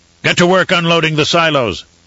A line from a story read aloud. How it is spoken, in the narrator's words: Torok barked